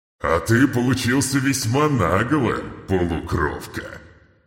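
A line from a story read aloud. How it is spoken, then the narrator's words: Demon's amused growl after laughing. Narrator (Russian): С каким-то непонятным весельем в голосе рыкнул демон, отсмеявшись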